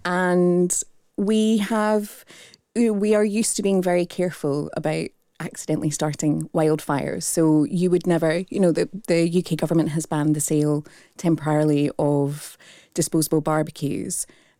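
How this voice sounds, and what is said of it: Strong Australian accent. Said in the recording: “You can tell from my strong Australian accent.”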